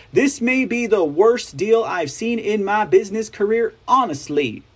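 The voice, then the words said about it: Fake Southern accent. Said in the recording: “I started doing the fake Clinton Kamala Southern accents”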